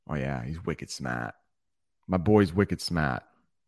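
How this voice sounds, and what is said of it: Boston / Maine accent. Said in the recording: “That's the accent in Boston and where I live in Maine.”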